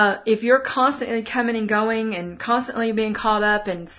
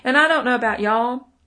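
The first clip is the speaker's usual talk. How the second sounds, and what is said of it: Put-on Texas accent. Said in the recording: “That's my little Texas accent there.”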